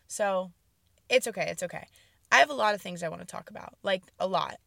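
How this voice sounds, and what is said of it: Hoarse, weak, partly lost voice. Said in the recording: “I don't really know where my voice went, but it's kind of missing.”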